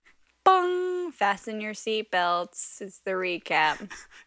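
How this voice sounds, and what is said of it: Flat, unenthusiastic delivery. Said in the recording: “don't you sound excited”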